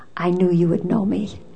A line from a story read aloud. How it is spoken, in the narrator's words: she whispered in my ear